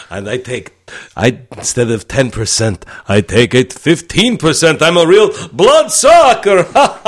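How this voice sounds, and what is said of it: Transylvanian vampire accent. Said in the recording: “Just had you talking a Transylvanian accent. ... You can take the cape off now. ... I don't know how you negotiate with a vampire.”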